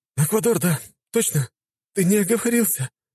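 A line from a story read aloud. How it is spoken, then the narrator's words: Whimpering. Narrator (Russian): раскулил парень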